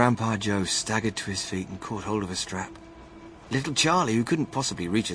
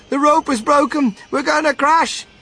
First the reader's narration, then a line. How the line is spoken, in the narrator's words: TV cried out